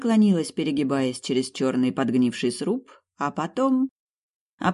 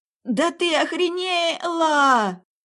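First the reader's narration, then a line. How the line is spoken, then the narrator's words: Terrified yelling in well. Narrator (Russian): орала в колодце, уверенная, что смерть моя пришла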